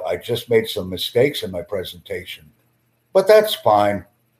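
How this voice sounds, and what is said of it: Slow, deliberate speech. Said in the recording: “I am speaking slowly”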